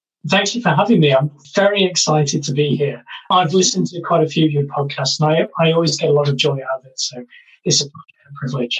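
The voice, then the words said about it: British accent. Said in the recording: “You're coming to us, joining us for this episode from the UK. Obviously, our listeners can hear the accent.”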